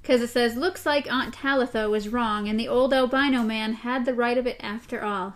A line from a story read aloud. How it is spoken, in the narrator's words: Susanna said in an odd voice